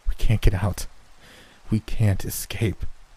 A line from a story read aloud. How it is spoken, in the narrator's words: Chris breathed